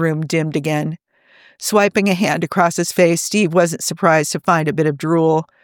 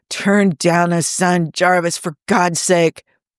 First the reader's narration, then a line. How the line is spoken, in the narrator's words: Tony groaning